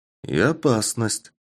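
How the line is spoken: Calm agreement. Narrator (Russian): спокойно согласился я

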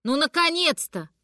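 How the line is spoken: Wailing yell. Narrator (Russian): провопила мама

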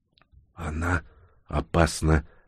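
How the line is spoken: Whisper. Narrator (Russian): прошептала Инга

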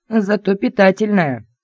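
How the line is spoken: Growled. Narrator (Russian): рыкнул Кэп

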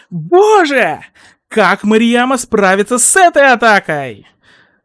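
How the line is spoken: Exclaimed. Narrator (Russian): воскликнул сущий Мик

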